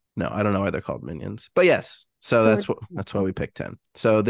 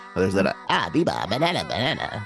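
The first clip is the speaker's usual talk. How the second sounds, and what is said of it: Cartoon minion voice impression. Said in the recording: “was that a good minion impression? ... That was pretty good.”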